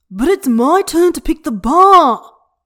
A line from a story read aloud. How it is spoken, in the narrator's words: Huaisang is screeching